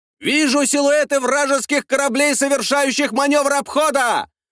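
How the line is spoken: Shouted report. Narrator (Russian): выкрикнул один из турецких офицеров

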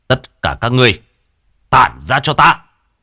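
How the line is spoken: Thunderous shout. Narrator (Vietnamese): quát lên một tiếng như sấm động

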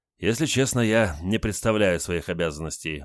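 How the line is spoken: Sighing. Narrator (Russian): вздохнул Олег

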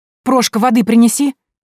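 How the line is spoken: Frightened shout. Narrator (Russian): крикнула, холодея

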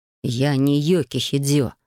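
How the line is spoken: Hiss. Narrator (Russian): прошипел художник

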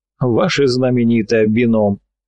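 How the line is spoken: Short laugh. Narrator (Russian): хохотнул любитель Ронхилла

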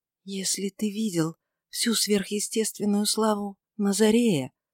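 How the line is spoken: Slow whisper, voice breaking. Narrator (Russian): прошептала она медленно, и голос ее пресекся

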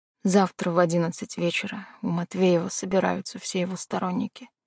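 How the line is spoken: Barely audible, old man. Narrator (Russian): едва слышно сказал старик

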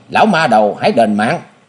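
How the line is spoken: Young man shouting. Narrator (Vietnamese): chàng quát lên

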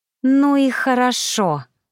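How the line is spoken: Hiss. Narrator (Russian): прошипела я

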